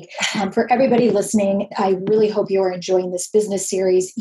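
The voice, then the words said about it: Strained, fading voice. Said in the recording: “I'm losing my voice as we speak.”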